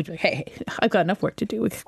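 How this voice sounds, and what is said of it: Imitates another person's voice. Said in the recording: “That's my impression of you”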